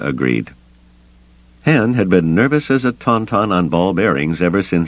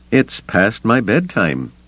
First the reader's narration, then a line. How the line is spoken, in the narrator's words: he said dryly